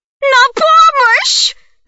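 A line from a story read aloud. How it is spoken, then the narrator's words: Old woman shouting. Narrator (Russian): закричала бабуся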